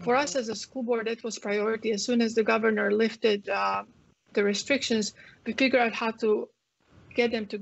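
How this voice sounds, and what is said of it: Croatian accent. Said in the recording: “you guys can tell from my accent, I come from um, Croatia, from Yugoslavia”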